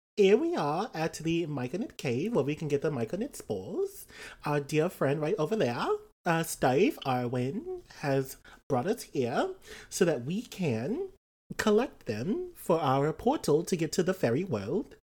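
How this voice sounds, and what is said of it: Speaks in a put-on accent. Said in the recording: “I love your accent”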